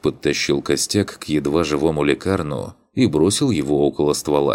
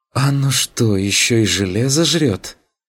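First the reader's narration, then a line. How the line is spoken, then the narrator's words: Loud exhale. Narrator (Russian): шумно выдохнул ассасин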